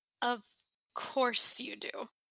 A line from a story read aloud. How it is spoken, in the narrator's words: he mutters